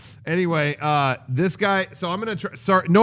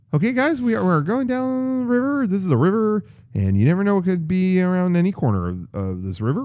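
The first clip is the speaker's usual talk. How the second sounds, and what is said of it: Imitates a ride employee's voice. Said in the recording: “no offense to this employee ... gonna do an impression of going down the river on the ride”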